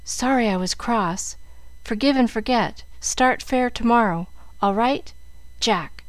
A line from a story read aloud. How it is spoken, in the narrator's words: in broken whispers